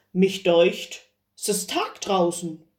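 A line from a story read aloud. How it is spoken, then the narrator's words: Voice calling from a stove. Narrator (German): rief's in dem Eisenofen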